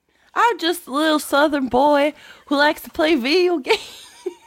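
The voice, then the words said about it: Imitated Southern US accent. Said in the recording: “she does quite a number when she does an impression of my southern accent voice”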